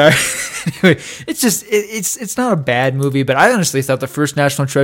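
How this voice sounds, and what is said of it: Usual voice. Nothing is said of it.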